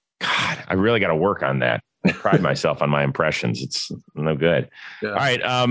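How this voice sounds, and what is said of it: Usual voice. Nothing is said of it.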